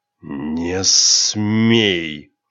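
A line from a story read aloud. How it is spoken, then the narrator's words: Hiss. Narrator (Russian): прошипел Рионар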